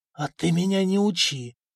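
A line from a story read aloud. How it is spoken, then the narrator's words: Wheezing, doomed. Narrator (Russian): просипел Сигеня, который совершенно отчетливо понял, что это конец, не жить ему теперь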